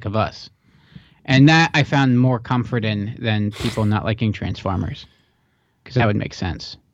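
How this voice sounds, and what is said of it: Dry, strained voice. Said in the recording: “I feel like I'm losing my voice. ... It's getting a little dry and tight back there”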